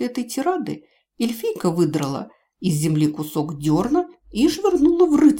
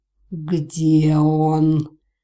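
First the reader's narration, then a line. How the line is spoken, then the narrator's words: Growling question. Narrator (Russian): рычащим голосом спросил некто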